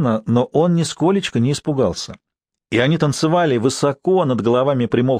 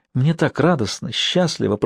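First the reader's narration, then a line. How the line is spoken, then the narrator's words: Whisper. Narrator (Russian): прошептала она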